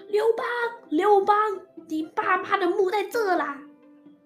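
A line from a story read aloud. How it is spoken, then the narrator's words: Shouting. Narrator (Chinese): 于是大叫说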